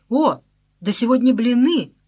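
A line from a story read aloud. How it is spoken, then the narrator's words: Shouting. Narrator (Russian): закричал он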